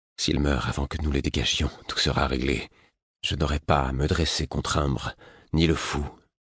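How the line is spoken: Cowardly inner murmur. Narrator (French): une voix couarde ajouta en murmurant

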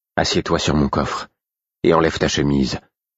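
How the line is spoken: Ordered curtly. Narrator (French): ordonnai-je sèchement

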